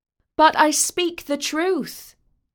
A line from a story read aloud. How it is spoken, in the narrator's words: shouted